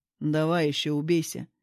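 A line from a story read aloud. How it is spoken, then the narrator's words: Displeased grumble. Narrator (Russian): недовольно проворчал я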